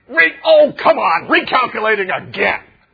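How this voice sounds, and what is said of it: Exasperated GPS voice. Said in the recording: “you can hear the tone of voice”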